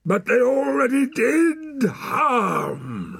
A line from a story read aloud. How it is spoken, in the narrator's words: roared the man